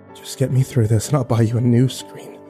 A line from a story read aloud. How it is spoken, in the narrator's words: I whispered to my inanimate companion